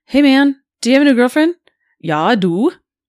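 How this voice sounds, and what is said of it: Put-on German accent. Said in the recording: “Can you do a new accent? ... Ooh, German. ... It's funnier with the accent.”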